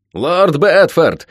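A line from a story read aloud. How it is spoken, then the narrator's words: Snarling shout. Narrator (Russian): оскалившись, выкрикнул лорд Спенсер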